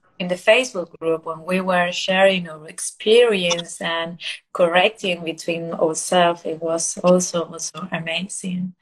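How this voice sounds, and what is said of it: Spanish-accented English. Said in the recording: “my English accent, because I'm Spanish speaker”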